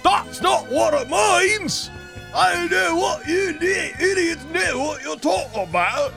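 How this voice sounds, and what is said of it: Put-on Cockney accent. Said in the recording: “That's a Cockney accent.”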